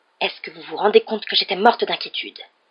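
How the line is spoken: Intense murmur. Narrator (French): dit Madame Weasley dans un murmure impressionnant

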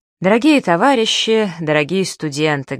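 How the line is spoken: Plain. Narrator (Russian): говорит он

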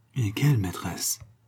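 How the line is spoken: Murmured. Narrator (French): murmura Fabien

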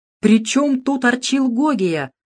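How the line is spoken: Exclaiming. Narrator (Russian): воскликнул Юрков

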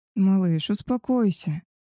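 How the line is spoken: Soft, smug. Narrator (Russian): мягко сказал самодовольный волчара

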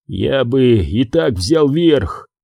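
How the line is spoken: Hoarse wheeze. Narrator (Russian): просипел Фозис

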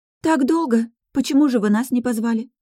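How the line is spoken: Surprised exclamation. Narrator (Russian): удивленно воскликнула Кэти

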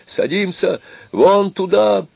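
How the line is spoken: Shouting. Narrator (Russian): закричал

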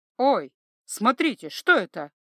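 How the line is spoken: Sudden exclamation. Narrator (Russian): вдруг воскликнула глазастая Дэй

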